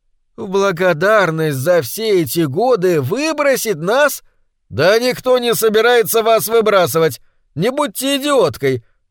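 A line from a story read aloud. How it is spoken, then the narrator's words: Irritated shouting. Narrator (Russian): раздражаясь, закричал Гриппин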